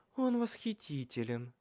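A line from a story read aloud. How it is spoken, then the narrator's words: Languid purr. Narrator (Russian): томно промурлыкала она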